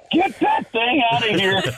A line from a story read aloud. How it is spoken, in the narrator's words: yelling